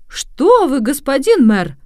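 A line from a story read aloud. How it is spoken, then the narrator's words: Exclaiming. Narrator (Russian): воскликнул Джованнино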